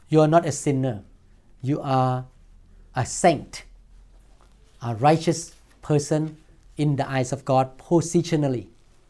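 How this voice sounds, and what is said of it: Non-native accented English. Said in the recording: “I still speak with accent”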